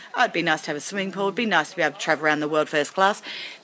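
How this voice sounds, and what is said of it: Flat, emotionless delivery. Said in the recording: “There's no emotion in that in my voice.”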